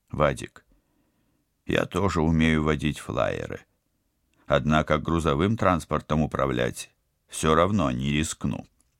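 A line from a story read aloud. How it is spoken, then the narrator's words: Soft but firm objection. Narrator (Russian): мягко, но непреклонно возразил Станислав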